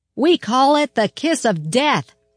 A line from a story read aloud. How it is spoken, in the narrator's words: she shouted, smiling wryly to soften the words